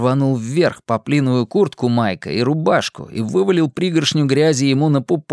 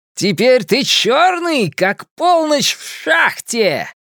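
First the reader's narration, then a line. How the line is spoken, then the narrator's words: Triumphant shouting. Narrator (Russian): триумфально кричал Генри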